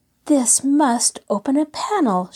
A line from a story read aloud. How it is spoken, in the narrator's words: she cried in excitement